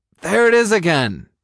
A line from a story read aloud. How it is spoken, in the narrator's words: he exclaimed